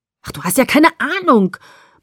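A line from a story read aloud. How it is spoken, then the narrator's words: Desperate bellowing. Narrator (German): brüllte er verzweifelt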